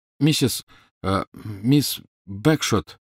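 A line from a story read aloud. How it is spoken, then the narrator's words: Slightly trembling call. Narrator (Russian): окликнул Гарри слегка дрожащим голосом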